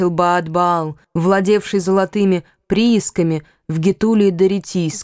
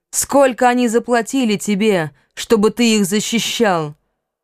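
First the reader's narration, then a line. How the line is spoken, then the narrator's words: Shout. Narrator (Russian): кто-то крикнул ему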